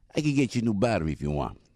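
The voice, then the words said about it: Imitates another person's voice. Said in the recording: “doing an impression of this guy”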